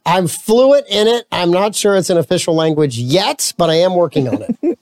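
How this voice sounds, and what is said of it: Southern American accent. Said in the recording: “you speak Southern. ... I do speak Southern.”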